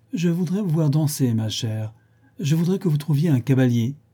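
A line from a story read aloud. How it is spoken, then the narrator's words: Detached tone. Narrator (French): elle proférait, d'un ton détaché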